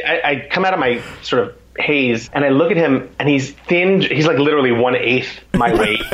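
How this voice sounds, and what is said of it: Usual voice. Nothing is said of it.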